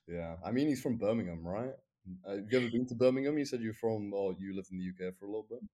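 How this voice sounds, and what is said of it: British accent like Tommy Shelby's. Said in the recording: “you're giving me Tommy Shelby vibes with your accent”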